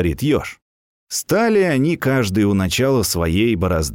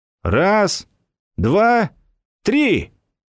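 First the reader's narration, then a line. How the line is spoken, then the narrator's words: Shouting. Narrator (Russian): крикнул заяц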